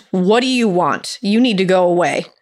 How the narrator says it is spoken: Catherine sternly asked

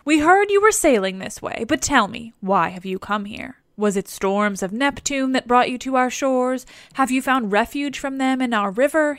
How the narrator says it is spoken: he asks

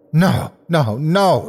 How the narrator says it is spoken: he cried

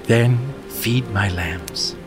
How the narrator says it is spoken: replied

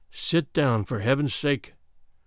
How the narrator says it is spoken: I whispered

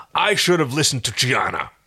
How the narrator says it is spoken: Dargo growled

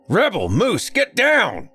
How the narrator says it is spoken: came a deep bellow from the front door of the house

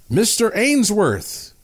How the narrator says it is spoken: a voice called out

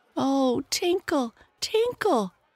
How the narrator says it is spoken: cried the happy little boy

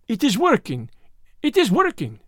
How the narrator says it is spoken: cried the Frenchman, and there was a crack in his voice as he spoke, which told me that he was also strung to his tightest

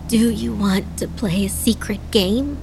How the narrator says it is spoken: Adana asked, her voice raspy

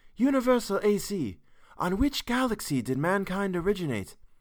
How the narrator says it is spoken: Z Prime was consumed with curiosity to see this galaxy, and he called out

